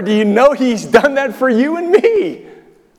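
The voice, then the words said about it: Loud, raised excited voice. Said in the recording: “raising my voice. I'm excited.”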